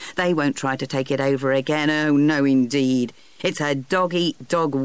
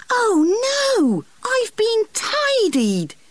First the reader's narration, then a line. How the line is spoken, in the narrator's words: he cried